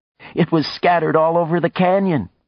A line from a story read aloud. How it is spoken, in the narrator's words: she said, laughing